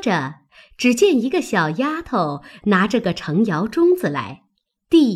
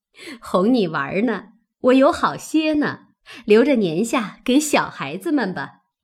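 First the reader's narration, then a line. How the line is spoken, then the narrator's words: Laughing. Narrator (Chinese): 笑着，说道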